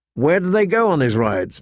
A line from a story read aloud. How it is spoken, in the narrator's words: Ned asked